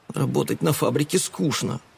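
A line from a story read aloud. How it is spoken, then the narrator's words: Whisper. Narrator (Russian): прошептал Эд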